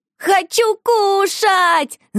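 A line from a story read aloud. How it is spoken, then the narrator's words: Shouting demand. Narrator (Russian): закричала Шуша прямо с постели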